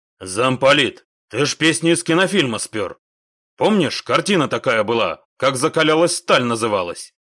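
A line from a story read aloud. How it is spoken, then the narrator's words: Embarrassed low drone. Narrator (Russian): Яша смущенно прогудел в ответ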